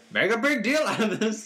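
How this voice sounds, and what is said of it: Imitates another person's voice. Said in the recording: “that's my Vince impression”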